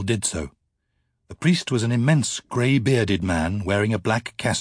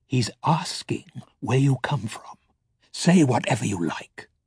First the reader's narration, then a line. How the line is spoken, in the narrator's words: Balthamos murmured